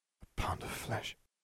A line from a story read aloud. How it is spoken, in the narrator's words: whispered